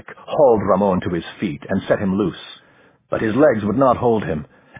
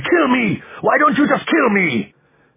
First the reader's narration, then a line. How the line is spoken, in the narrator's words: Ramon screamed